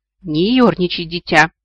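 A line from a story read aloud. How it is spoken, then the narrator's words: Stern rebuke. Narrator (Russian): строго одернул предок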